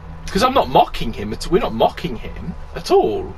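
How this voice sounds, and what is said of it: Voice goes suddenly high-pitched. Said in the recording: “My voice went really high.”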